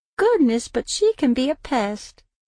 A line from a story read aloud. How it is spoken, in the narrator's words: Lillian said, laughing